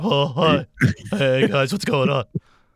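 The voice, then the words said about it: Imitates another person's voice. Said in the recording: “that's a good imitation.”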